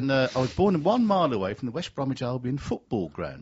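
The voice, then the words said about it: West Midlands English accent. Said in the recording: “go from the accent. I'm from the West Midlands.”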